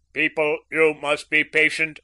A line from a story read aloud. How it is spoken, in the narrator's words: boomed the government announcer